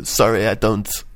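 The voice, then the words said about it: Vague foreign, Eastern European accent. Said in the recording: “An elderly Russian woman. ... It went from vaguely French to sort of Eastern European beggar.”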